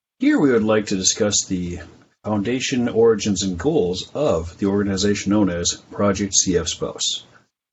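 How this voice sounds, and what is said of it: Polished radio announcer voice. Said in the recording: “radio voice? ... Oh, it's amazing. It's perfect.”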